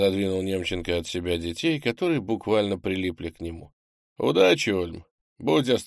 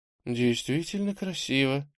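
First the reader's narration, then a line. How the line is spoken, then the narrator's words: Quiet. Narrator (Russian): тихо произнесла Таня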